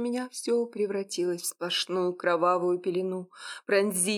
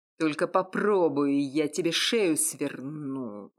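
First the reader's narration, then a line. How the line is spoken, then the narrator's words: Threatening growl, unfamiliar man. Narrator (Russian): Угрожающим рычанием донесся незнакомый мужской голос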